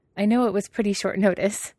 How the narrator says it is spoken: he said with a chuckle

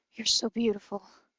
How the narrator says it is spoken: Scorpius breathed

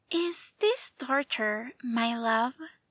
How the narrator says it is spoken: Obi-Wan said sweetly

